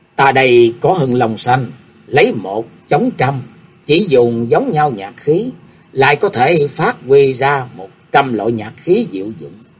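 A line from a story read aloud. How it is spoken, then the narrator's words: Smiling. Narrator (Vietnamese): mỉm cười nói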